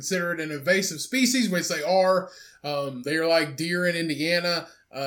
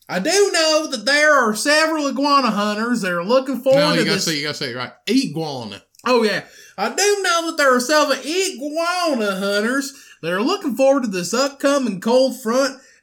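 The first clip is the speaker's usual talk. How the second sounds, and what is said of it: Put-on Southern US accent. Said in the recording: “I'm going to say this quote in my best southern accent”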